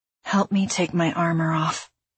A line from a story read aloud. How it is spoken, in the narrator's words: I mumbled